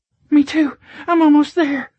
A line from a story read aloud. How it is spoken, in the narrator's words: she moaned loudly